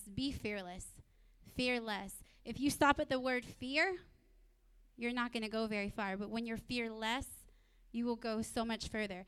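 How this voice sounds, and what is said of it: Country accent. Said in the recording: “you got my country accent coming out”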